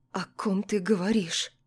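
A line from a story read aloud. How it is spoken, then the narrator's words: Slightly trembling question. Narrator (Russian): спросила я слегка дрожащим голосом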